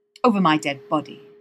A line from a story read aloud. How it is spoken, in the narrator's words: snaps Dean